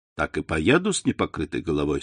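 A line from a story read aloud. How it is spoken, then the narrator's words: Plain. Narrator (Russian): сказал Андреа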